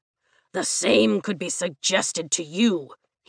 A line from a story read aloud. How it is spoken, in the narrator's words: he snarls